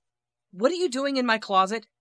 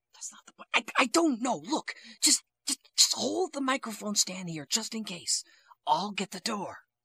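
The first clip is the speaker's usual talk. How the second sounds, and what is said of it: Whispering. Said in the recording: “Why are we whispering?”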